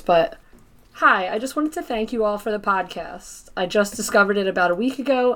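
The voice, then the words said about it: Nasal voice. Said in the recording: “in my nasal voice”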